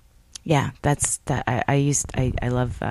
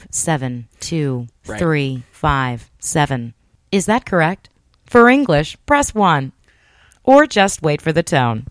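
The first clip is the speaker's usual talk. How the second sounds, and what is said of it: Automated phone-system voice. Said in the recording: “you could be definitely a call center type of voice. Anything that's on like an answering machine ... imitating like the computer lady”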